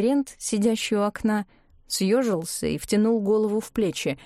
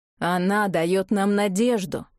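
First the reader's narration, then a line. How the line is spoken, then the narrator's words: Strange ringing voice. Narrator (Russian): странным, звенящим голосом продолжал Мартин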